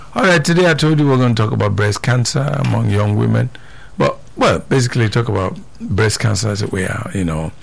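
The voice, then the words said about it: Voice with a slight cold. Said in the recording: “I have a little cold.”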